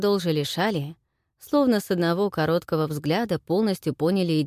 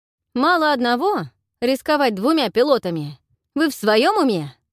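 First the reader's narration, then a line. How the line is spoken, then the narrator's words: Barked from behind. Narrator (Russian): Рявкнул откуда-то из-за плеча Широ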